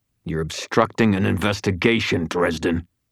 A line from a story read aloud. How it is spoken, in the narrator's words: Green growled